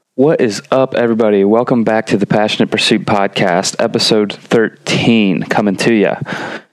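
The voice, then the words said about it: Congested, sick-sounding voice. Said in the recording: “feeling a little under the weather this week. If you can hear that in my voice ... typical stuff, congestion and runny nose”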